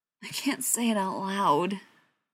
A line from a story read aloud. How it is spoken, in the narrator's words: he mumbled